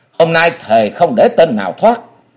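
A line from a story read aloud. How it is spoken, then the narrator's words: Triumphant loud shout. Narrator (Vietnamese): đắc ý quát to một tiếng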